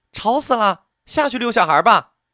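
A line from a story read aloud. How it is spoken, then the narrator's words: High-pitched woman calling. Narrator (Chinese): 一个高昂的女生在门口叫了一声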